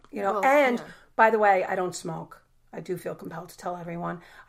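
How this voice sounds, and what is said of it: Raspy voice, sounds sick. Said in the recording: “I'm sick ... I have a natural, raspy voice ... I'm very aware that I have a raspy voice ... I do have a cold, and it's my voice”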